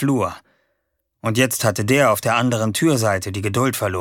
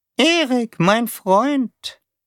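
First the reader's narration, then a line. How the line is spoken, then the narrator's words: Squeaky monotone voice. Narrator (German): sagte Taube mit seiner piepsigen, eintönigen Stimme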